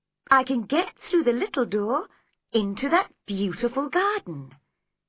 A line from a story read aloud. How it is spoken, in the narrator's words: she said happily